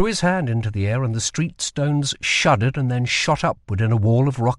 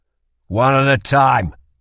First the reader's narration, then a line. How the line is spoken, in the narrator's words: snapped Cal